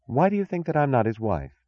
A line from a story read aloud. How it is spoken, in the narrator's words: she asked calmly